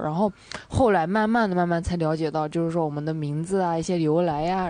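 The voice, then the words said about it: Northwestern Chinese accent. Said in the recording (Chinese): “是西北那边吗？...我一听这个口音...你们俩的发音方式真是非常像”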